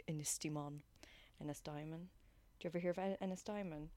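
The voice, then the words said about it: Put-on French accent. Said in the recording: “in my French accent ... You did it in a French accent”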